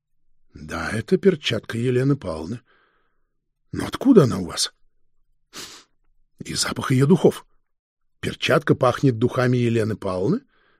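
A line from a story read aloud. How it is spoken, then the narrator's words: Soft interrupting detective chief. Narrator (Russian): мягко перебил начальник сыскной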